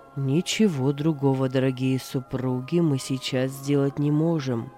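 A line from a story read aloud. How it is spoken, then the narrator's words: Deep chest voice. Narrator (Russian): произнес доктор глубоким грудным голосом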